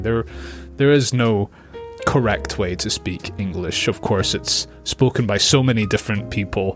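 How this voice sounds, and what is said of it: Mixed Scottish-British English accent. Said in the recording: “I have a British English accent, but because I'm from Scotland, I have more of a Scottish accent, but my accent is quite mixed”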